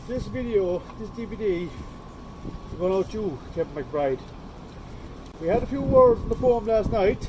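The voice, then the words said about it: Put-on accent. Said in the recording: “Listen to the accent.”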